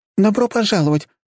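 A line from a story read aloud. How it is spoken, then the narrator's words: Young woman, cheerful then fading. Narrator (Russian): бодро начала приветствие молоденькая девушка-консультант, но ее энтузиазм быстро угас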